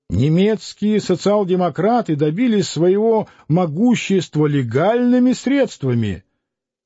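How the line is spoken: Old man shouting. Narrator (Russian): кричал старый литератор

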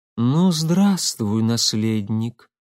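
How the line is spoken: Muffled, hollow voice. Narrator (Russian): глухо произнесла

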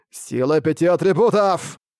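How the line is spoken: Loud shout. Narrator (Russian): громко крикнул

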